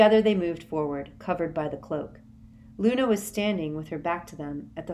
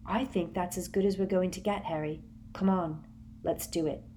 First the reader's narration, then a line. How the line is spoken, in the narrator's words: Hermione said quietly